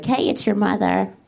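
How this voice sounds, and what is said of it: Imitated mom voice. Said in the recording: “mom voice”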